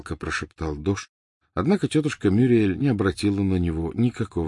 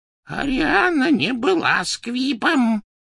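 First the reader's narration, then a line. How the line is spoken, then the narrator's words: Hoarse rasp. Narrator (Russian): прохрипел Дош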